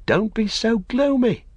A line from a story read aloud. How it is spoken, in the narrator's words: cried Pippin